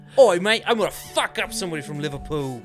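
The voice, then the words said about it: Put-on English accent. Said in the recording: “That was a bad accent. Let me try that again... That was good... Nailed it... Liverpool's a hard word to say in an English accent”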